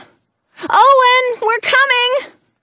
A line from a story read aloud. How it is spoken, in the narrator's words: I shout